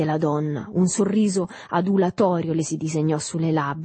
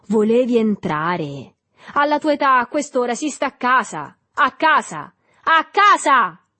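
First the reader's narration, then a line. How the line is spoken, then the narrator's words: Shouted. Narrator (Italian): gridò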